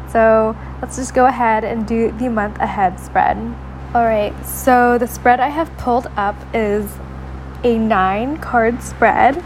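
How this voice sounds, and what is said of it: Sore, strained-sounding voice. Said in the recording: “I apologize in advance for my voice... My throat is in so much pain... my voice is not great to listen to when it sounds like this”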